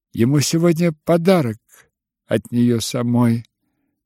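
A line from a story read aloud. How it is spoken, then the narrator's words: Plain. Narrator (Russian): сказала Варя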